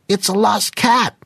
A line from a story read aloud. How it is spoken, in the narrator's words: a piercing voice called out